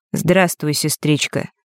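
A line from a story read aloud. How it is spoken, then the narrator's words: Flat colorless voice. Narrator (Russian): бесцветным голосом сказал Норт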